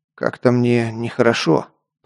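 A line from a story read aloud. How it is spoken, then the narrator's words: Muttering. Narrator (Russian): пробормотал я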